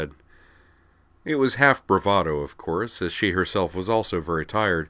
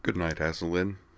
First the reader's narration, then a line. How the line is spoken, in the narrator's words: she murmured